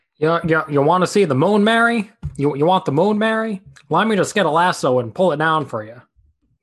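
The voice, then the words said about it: Attempted transatlantic accent. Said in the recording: “That was my attempt at the transatlantic accent”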